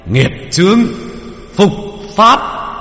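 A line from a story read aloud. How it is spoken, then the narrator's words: Thunderous shout. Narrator (Vietnamese): Tiếng hét của thầy Phục Linh như sấm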